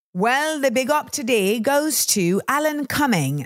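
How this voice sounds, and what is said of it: Put-on British accent, not very good. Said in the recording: “I'm using a British accent ... please stop using that accent. You're not very good at it.”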